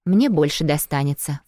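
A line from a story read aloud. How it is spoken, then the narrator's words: Snort. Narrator (Russian): фыркнула Юля, отправляя в рот очередную ложку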